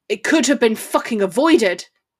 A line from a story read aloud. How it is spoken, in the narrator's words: he barked fiercely